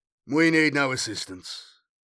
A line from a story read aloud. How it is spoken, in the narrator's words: he said in a neutral voice